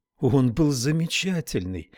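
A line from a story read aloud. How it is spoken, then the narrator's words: Exclaimed. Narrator (Russian): воскликнула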